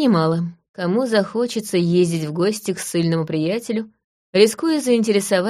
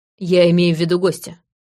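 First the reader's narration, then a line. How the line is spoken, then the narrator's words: Plain. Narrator (Russian): спросила я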